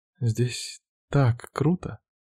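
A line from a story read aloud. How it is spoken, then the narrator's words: Quiet. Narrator (Russian): негромко говорит она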